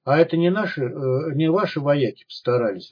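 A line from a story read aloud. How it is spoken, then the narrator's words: Glum question. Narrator (Russian): уныло спросил Полос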